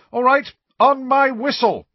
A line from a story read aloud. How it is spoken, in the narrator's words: shouted Angelina